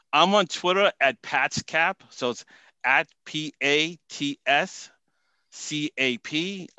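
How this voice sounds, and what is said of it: Boston accent. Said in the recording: “my Boston accent ... I totally hear it coming across”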